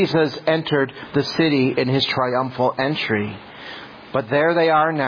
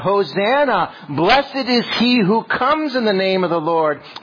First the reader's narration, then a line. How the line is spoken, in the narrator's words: some people present in that riotous crowd who less than a week earlier had cried out